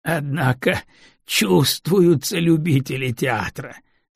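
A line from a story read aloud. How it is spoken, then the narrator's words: Speaking through laughter. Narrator (Russian): сквозь смех сообщил Крыницкий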